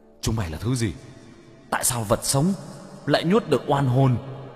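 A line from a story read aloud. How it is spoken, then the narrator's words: Terrified scream. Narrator (Vietnamese): Đám oan hồn hét lên sợ hãi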